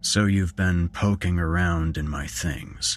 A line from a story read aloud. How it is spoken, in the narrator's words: he said icily